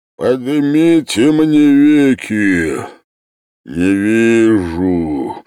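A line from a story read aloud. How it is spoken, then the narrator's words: Deep subterranean voice. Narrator (Russian): сказал подземным голосом Вий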